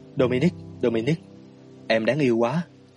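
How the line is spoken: Whispered. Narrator (Vietnamese): Anh thì thầm

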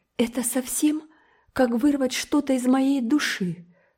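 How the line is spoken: Sobbing. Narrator (Russian): всхлипнула

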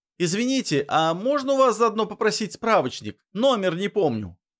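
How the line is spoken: Shouted toward another room. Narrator (Russian): Крикнул я в сторону кухни

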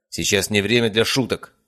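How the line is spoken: Barking. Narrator (Russian): рявкнул Мельников

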